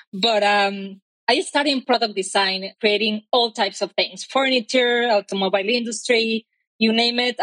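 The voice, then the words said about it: Mexican accent. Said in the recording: “I am Mexican. My accent probably already told you so.”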